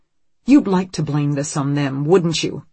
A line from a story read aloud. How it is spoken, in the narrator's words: Anne snaps